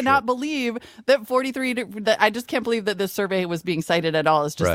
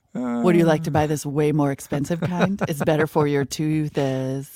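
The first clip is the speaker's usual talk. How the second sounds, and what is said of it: Creepy put-on voice. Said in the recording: “Say it again in that creepy voice.”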